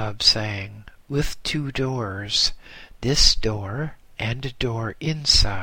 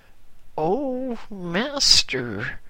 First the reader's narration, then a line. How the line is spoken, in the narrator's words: I exclaimed in complete fright